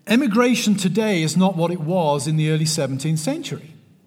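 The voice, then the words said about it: West Country English accent. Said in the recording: “My accent ... which part of your Texas are you from with that accent? ... I'm from the West Country of England.”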